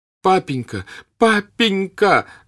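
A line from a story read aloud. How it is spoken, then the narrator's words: Shouting while sobbing. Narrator (Russian): закричал он ему вслед, рыдая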